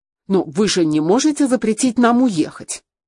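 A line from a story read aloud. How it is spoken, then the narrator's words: Irritated voice. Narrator (Russian): раздраженно сказал Ян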